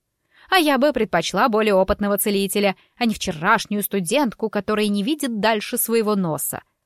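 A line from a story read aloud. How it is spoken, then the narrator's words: Snapping retort. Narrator (Russian): огрызнулась дама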